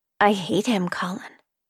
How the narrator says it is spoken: she whispered

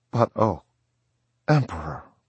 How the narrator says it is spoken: pleaded the flyer on his knees, the tears pouring down his face

